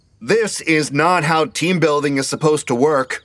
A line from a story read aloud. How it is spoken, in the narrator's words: Devon hollered at the top of his lungs